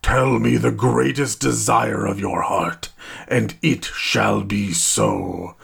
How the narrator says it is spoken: the djinn bellowed

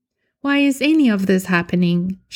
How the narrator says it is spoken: Charlotte sighs

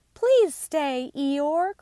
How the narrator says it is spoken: cried Roo and Piglet together

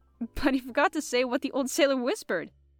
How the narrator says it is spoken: laughed Jean

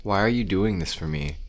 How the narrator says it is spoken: Kevin sighed

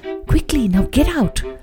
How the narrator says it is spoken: The owner was fast asleep and he whispered

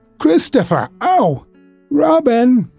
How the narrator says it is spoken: called out the cloud

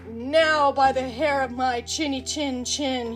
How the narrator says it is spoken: he roared

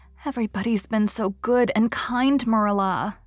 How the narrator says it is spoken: sighed Anne happily

